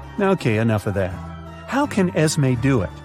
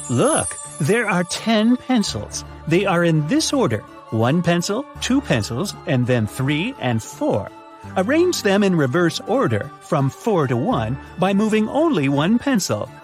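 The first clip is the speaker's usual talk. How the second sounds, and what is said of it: Bad witch voice impression. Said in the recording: “my bad witch impression”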